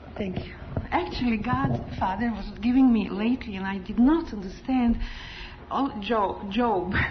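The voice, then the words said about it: Strong non-native accent. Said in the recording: “when I get excited, I um, my accent gets so strong. But then people say it's charming”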